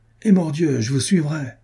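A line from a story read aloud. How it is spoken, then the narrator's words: Exclaimed. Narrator (French): s'écria Renaud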